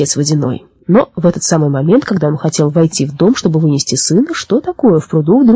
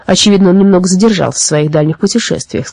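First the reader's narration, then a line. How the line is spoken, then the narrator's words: Plain, well spirit. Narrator (Russian): сказал колодезный дух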